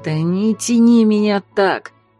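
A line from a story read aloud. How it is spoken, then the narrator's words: Groaning. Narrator (Russian): застонал Марс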